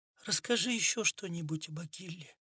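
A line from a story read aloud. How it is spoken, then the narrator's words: Barely audible request. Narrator (Russian): едва слышно попросила Анна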